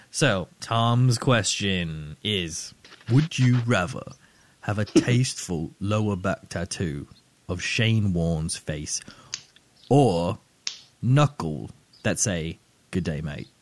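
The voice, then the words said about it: Well-done put-on accent. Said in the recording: “Very good accent. Well done”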